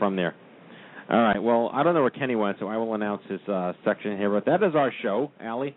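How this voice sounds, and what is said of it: Usual voice. Nothing is said of it.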